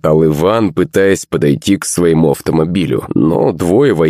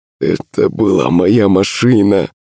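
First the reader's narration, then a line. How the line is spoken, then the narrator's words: Strained, holding back emotion. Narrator (Russian): выдавил он, справляясь с эмоциями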